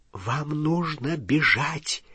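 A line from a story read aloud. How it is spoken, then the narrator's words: Whispered. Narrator (Russian): прошептала профессор МакГонагал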